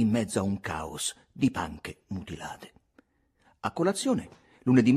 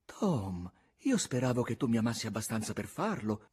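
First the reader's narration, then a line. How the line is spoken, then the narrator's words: Pained tone. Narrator (Italian): disse zia Polly in un tono addolorato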